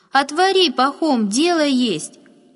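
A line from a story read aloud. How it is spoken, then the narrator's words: Loud woman's reply. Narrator (Russian): громко отозвалась женщина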